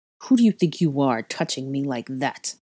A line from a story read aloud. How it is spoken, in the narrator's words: snarled